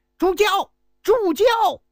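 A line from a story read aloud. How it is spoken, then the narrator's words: Loud shout. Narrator (Chinese): 紧忙大喊一声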